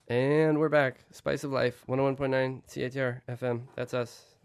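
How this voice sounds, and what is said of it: Congested voice from a cold. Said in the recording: “my voice is sexier than normal ... because I have a cold”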